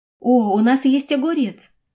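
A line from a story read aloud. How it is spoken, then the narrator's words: Joyful. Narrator (Russian): радостно сказала Сюэ Тао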